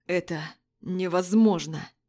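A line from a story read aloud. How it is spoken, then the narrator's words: Fox speaking through teeth. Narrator (Russian): процедил лис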